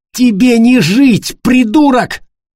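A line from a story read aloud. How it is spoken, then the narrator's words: Shouted. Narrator (Russian): выкрикнул Тима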